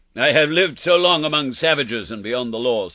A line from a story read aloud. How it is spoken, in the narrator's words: said he